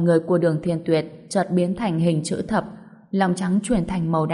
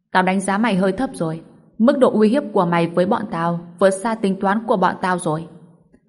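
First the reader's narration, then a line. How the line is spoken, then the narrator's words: Loud laughing. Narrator (Vietnamese): Đường Thiên Tuyệt cười lớn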